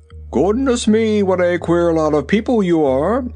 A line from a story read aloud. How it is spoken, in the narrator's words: exclaimed the Rubber Bear